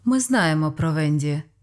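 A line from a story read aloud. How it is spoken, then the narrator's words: Calm. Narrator (Ukrainian): спокійно сказала Пет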